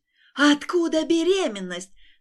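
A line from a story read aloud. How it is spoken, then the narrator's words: Furious spitting scream. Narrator (Russian): закричала так, что брызнула слюной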